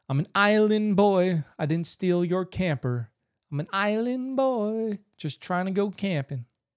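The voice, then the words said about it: Imitates another person's voice. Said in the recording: “my island boy impression”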